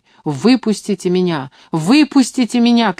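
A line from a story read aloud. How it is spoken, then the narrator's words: Shouting. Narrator (Russian): кричала я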